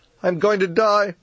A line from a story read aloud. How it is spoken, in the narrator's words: she wailed